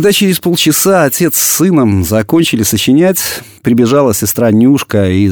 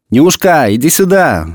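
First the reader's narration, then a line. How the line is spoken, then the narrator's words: Shout. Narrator (Russian): закричал в ответ Иван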